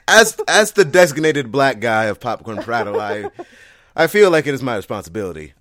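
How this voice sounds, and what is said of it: Put-on white-sounding accent. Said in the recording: “there's my white accent.”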